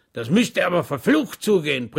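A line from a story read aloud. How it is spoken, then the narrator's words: Bellowed. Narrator (German): brüllte der Vorsitzende der Kommission Schwäg zu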